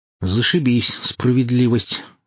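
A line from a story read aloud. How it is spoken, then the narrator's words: Sigh. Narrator (Russian): вздохнул я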